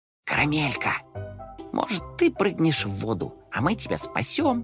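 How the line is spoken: Whisper. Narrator (Russian): зашептал он

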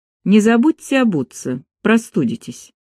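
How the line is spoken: Cold. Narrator (Russian): холодно добавила

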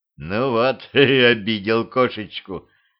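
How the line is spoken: Chuckling. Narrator (Russian): хохотнул Дюдя

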